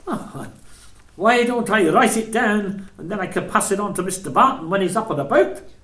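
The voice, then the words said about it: Regional British accent. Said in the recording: “endearing regional accent”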